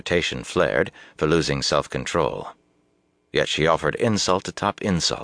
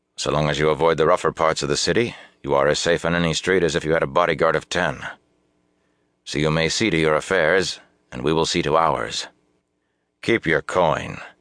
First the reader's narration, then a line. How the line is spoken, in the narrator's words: he added coldly